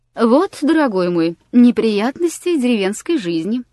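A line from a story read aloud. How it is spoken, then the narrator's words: Cheerful remark. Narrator (Russian): весело заметил Аркадий Павлович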